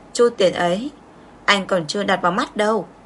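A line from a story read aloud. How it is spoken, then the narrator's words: Cold dismissive laugh. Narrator (Vietnamese): Tiêu Mộ Viễn cười nhạt một tiếng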